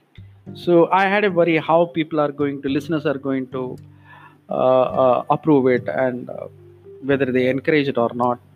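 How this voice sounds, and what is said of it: Indian-accented English. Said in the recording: “my language and my accent. Being an Indian, that accent may be very different.”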